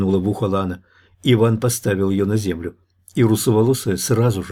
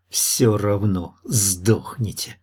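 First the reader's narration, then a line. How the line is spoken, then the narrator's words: Angry hiss from grass. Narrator (Russian): зло процедила из травы смуглянка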